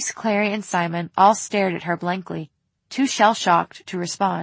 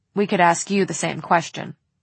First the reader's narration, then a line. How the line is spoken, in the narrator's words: Jace said dryly